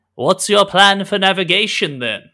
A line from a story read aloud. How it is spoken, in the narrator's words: he shouts across the divide